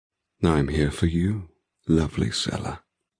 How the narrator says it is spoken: he murmurs softly

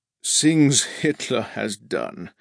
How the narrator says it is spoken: Iago sighed, his eyes heavy and sad

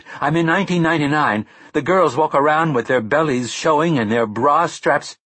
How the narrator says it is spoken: she shouted

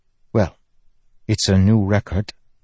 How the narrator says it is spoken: Sigzil mumbled

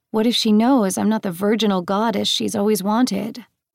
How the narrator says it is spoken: Hecate chuckled

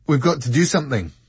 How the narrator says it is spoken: said Richard, urgently

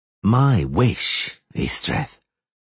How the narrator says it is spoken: the witcher drawled

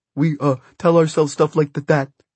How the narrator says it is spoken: stammered Tonton

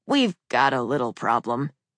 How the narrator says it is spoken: he said, lowering his voice

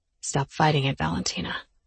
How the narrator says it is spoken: Almost whispering, he said

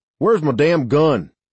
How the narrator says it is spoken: Avery shouted

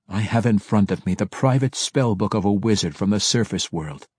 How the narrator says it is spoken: Alton said evenly

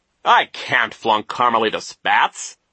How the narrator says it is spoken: Nero said impatiently

